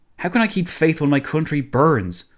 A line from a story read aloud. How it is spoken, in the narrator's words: blurted out